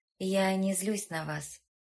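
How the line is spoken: Calm. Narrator (Russian): спокойно произнесла Эжени

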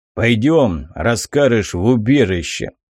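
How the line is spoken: Grim order. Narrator (Russian): мрачно приказал я Самгару

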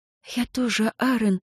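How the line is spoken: Whisper with deep sigh. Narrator (Russian): прошептала София, глубоко вздыхая

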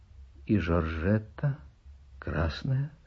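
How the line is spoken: Quiet question. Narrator (Russian): спрашивает Каминский тихо

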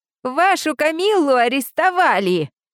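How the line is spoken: Piglike squeal. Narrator (Russian): От поросячьего визга Олди

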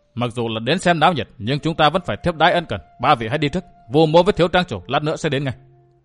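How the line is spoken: Stern voice. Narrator (Vietnamese): Vũ Á Vinh nghiêm giọng

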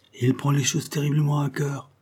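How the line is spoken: Sighing to herself. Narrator (French): se disait-elle avec un soupir

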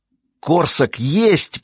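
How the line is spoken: Hissed. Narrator (Russian): прошипела она из окна

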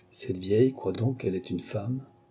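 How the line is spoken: Murmuring. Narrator (French): murmura le vainqueur de Mahon

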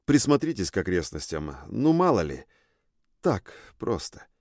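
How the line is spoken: Muttering. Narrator (Russian): пробормотал я

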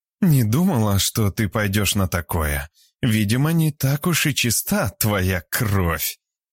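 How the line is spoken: Snide, through teeth, female. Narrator (Russian): ехидно процедила Альбина

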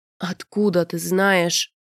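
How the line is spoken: Moaned. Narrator (Russian): простонал Рианец

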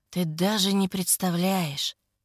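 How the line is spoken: Hoarse whisper. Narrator (Russian): Хрипло шепчет

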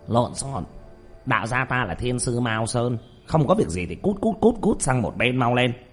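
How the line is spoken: Startled old man shouting. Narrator (Vietnamese): Lão đạo sĩ chợt ngẩn ra, quát lên

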